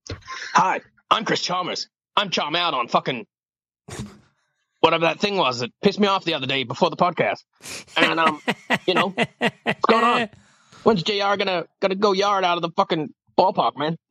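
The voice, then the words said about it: Imitates another person's voice. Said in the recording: “people are doing an impression of him”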